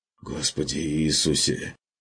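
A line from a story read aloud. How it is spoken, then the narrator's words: Quiet mutter. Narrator (Russian): пробормотал фон Люфтенхаймер тихо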